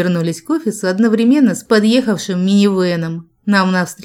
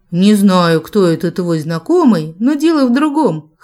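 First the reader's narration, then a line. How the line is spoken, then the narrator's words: Snort. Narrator (Russian): хмыкнул Джек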